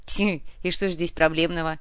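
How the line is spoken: Hmphing. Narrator (Russian): хмыкнул Артем

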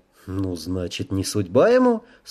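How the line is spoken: Calm reply. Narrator (Russian): спокойно ответил Рэй

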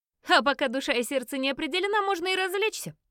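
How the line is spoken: Laughing again. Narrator (Russian): снова рассмеялась Фиона

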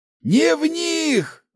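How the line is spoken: Yelled. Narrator (Russian): заорал Ларс

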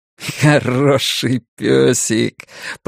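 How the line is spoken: Spoken, then laughing. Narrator (Russian): произнес и рассмеялся

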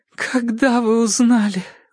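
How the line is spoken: Forced out, tearful. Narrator (Russian): выдавила она, сквозь слезы, утомлен и изможден

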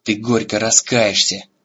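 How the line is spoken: Growled. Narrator (Russian): прорычал

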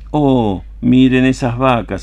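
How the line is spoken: Aunt exclaiming. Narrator (Spanish): exclamó la tía

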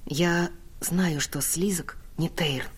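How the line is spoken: Whisper in ear. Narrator (Russian): прошептала я ему на ухо

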